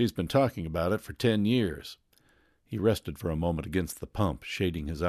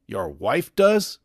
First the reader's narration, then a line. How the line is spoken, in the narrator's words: exclaimed Tom, startled